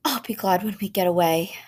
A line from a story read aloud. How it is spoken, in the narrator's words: she sighed